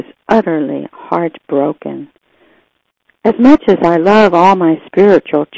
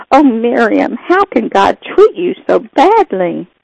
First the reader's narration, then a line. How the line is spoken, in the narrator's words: began to weep and I cried out